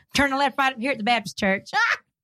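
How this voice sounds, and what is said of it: Southern-accented GPS navigation voice. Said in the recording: “do my Waze voice? You know the girl that tells you to turn right and left? ... Southern speaking Sally”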